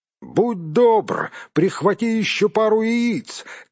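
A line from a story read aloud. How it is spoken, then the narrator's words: Shout after someone. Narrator (Russian): крикнул ему вслед Гэндальф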